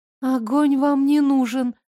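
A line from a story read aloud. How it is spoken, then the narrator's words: Frightened whisper. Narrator (Russian): испуганно прошептала Лара, гулко сглотнув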